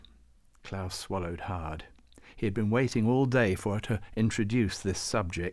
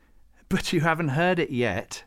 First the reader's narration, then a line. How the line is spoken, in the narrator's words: she scoffed